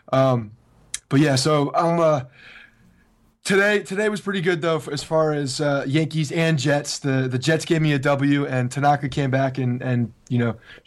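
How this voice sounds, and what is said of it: Hoarse, nearly lost voice. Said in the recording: “the Yankees played like your voice sounds ... my voice is probably gone from yelling at college football”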